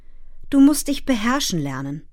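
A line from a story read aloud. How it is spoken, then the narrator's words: Gentle. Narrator (German): sagte er sanft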